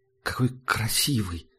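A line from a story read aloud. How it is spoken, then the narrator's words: Breathless admiration. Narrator (Russian): выдохнула Герда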